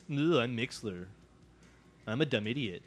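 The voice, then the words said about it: Imitates another person's voice. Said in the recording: “That's my impression of you, Mixler.”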